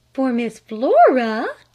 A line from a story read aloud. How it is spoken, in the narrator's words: gasped her mother